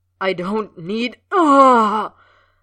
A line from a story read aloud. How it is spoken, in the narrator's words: Snape began, cut off by another moan